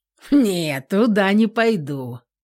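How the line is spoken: Snorting. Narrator (Russian): фыркнул Никита

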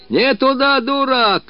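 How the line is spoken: Shouting after someone. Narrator (Russian): кричал ей вслед Мыльников

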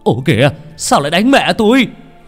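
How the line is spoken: Shouting, just run up. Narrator (Vietnamese): Ông Thành vừa chạy tới liền la lên

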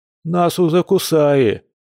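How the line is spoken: Gloomy interjection. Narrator (Russian): мрачно вставил Кир

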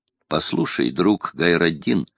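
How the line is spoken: Plain. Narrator (Russian): сказал ему воин

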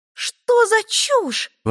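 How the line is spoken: Exclaiming. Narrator (Russian): воскликнула Этти

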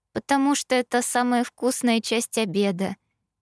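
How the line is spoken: Timid, smiling explanation. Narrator (Russian): объяснила, робко улыбнувшись

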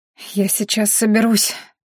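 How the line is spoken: Trembling voice, young woman. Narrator (Russian): дрожащим голосом сказала девушка

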